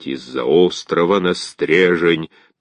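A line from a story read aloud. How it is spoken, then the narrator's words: Very deep bass voice. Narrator (Russian): таким глубоким басом мог похвастаться только бяка-закаляка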